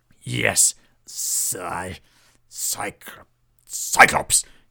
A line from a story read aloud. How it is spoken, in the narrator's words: he spat the word out